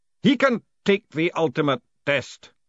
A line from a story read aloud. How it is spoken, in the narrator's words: said the worshipful master sternly